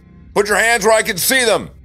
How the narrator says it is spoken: one officer shouted

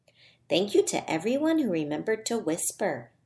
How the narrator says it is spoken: Miss Rose said

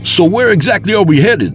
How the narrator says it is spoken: I asked over the roar of the wind through the open window

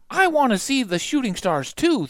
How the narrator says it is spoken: Thumper cried

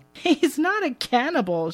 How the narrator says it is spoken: corrects, chuckling

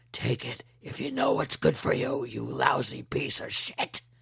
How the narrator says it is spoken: He rasped

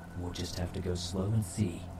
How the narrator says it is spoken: she whispered back

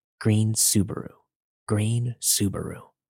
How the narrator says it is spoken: the man keep whispering

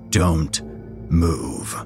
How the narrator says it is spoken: the man said, his voice low and stern

